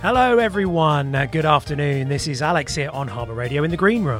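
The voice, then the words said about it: Out of breath. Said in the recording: “I'm out of breath. I've just ran here from Goulston.”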